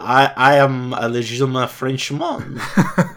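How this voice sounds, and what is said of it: Exaggerated cartoon French accent. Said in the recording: “doing like a really exaggerated Pepe Le Pew accent.”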